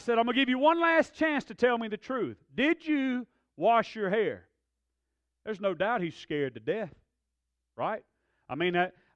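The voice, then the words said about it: Raised, elevated angry voice. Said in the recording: “my voice is elevated”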